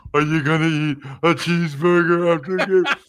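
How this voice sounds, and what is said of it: Slobbering mocking imitation of a voice. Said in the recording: “that sounds like when people make fun of my voice, that sounds like what they do ... I'm slobbering as I'm doing it. I'm slobbering.”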